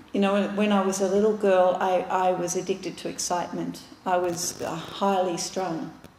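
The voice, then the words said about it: Australian accent. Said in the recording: “I might sound different and I've got a different accent ... Australians are a nation of very heavy drinkers, and many of us are”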